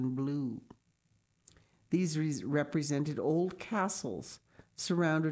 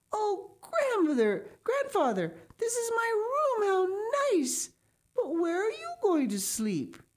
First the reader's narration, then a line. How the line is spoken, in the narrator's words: Heidi clapped her hands for joy and exclaimed